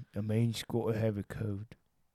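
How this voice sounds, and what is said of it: Imitates another person's voice. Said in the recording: “That's Michael Caine. It's Michael Caine from Batman. ... your impression sucks.”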